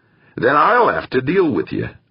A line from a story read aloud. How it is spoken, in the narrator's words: Ambrose replied